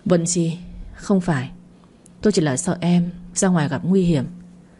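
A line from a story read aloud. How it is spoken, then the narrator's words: Gentle explanation. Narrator (Vietnamese): Hắn chỉ nhẹ nhàng giải thích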